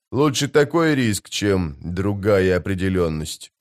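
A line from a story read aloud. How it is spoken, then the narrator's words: Mutter. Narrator (Russian): пробормотал он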